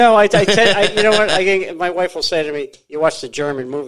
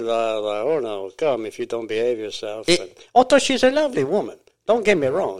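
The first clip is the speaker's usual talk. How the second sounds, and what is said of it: Put-on foreign accent. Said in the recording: “Forgive me for the accent.”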